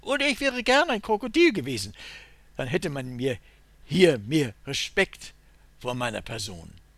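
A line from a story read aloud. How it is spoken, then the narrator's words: Shrill interrupting call. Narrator (German): Der kleine Stritsch ruft mit spitzer Stimme dazwischen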